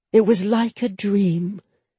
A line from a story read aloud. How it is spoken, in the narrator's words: she breathed